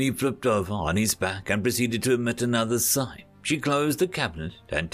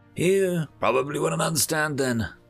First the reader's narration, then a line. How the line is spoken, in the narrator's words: the winged said, with another sigh